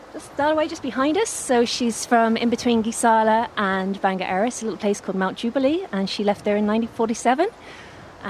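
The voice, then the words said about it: Mixed London and Mayo Irish accent. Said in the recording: “I'm half Londoner, half Mayo. ... You've got that beautiful in-between accent”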